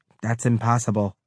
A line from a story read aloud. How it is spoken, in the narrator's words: In that flat accent, she said